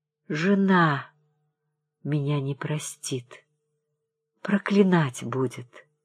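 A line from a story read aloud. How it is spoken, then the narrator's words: Very quiet. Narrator (Russian): совсем тихо произнес он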